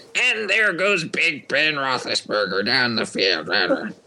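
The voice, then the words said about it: Scratchy raspy sports announcer impression. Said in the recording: “his voice, which sounded like someone who smoked like 20 packs of cigarettes a day ... I'm not a good impersonator ... it was just this really scratchy kind of salt of the earth like voice”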